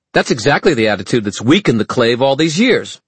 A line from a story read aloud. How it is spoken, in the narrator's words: snapped Zara